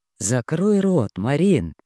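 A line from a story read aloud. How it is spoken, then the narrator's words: Muffled, hollow voice. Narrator (Russian): глухо произнес он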